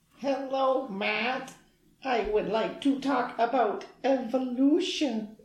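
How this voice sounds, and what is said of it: Weird robotic Data-like voice. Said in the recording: “worst Data impression, doing the nanites ... he kind of does a weird voice ... some terrible voice acting”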